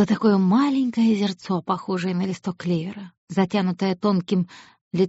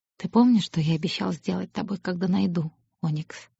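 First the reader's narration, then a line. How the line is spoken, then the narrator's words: Quiet question. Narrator (Russian): тихо спросил он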